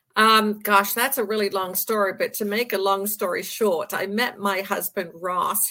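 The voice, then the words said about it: English accent. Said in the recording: “there's an accent in your voice, and it's not this Delco accent ... Obviously, you're from England”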